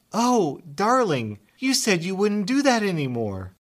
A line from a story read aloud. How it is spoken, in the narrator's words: she exclaimed